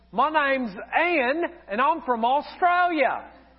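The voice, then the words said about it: Bad put-on Australian accent. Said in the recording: “if you think that accent is bad, it was even worse then”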